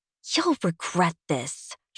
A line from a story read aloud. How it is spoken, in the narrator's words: she snarls at him